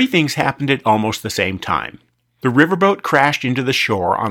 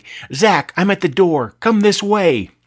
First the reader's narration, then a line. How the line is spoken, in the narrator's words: Amie was yelling